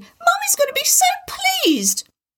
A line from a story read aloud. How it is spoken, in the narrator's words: shouting